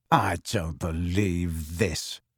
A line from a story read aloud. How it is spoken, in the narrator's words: snarled Harry